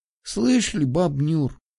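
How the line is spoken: Sighing. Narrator (Russian): Вздохнула Веська

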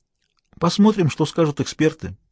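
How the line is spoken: Calm conclusion. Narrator (Russian): спокойно заключил Смайлоу

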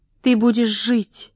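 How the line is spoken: Exclaimed. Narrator (Russian): воскликнула она

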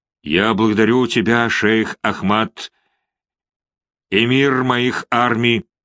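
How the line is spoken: Plain. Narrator (Russian): сказал султан

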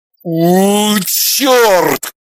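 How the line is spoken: Growling. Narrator (Russian): зарычал он

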